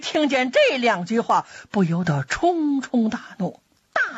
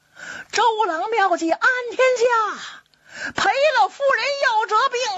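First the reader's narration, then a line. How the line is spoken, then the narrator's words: Soldiers loudly shouting. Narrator (Chinese): 诸葛亮手下的兵将高声喊嚷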